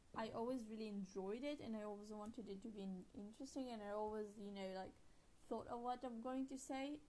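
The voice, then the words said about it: Non-native English accent. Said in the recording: “English is not my first language, as you can probably hear from my changing and weird accent”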